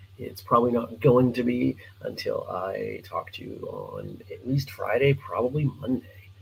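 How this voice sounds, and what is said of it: Scratchy, not fully recovered voice. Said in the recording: “my voice is still not quite 100% ... I've got a scratchy voice”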